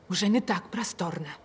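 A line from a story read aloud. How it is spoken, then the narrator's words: Wife's whisper. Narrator (Russian): шепотом произнесла жена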